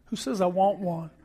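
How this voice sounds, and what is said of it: Poor put-on English accent. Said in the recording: “that wasn't a very good English accent.”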